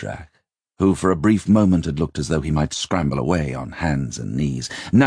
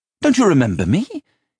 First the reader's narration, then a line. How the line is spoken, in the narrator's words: he said excitedly